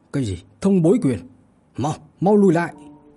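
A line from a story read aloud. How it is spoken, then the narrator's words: Loud warning shout. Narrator (Vietnamese): hét lớn cảnh cáo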